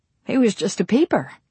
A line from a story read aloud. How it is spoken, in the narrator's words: explained cheerfully